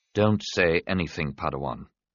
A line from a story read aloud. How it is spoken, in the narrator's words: Qui-Gon said gently